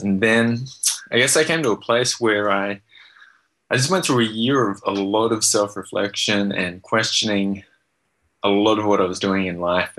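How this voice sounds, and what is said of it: Australian accent. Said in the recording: “grew up in Australia... hear the accent that comes out, it throws them off... raised in Australia”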